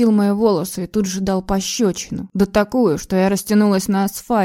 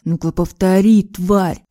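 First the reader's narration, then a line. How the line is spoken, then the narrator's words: Growled. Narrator (Russian): прорычал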